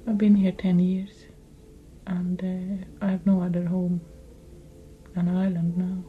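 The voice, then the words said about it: Foreign accent in English. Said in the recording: “I'll always be a foreigner here, obviously, with my accent now ... people couldn't understand my accent”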